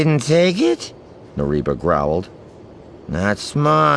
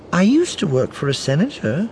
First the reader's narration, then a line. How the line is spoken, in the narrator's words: Orinda said brightly